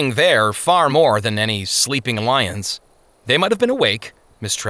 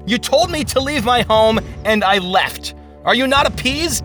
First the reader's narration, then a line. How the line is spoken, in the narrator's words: Faithful stood his ground, shouting